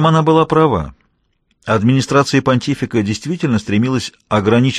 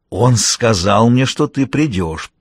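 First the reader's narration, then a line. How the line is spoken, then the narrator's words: Unrecognizable growl. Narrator (Russian): прорычала она неузнаваемым голосом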